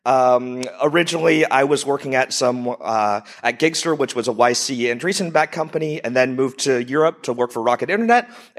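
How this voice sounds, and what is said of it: American accent. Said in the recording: “I'm originally an entrepreneur from the U.S., if you haven't figured out from my accent.”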